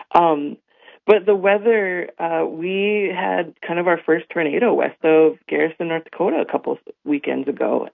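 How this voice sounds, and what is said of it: Strained, worn-out hoarse voice. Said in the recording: “I've got allergies, and so my voice is a little shot too ... I was singing all day yesterday ... hooting and hollering and screaming ... my voice is a little off today”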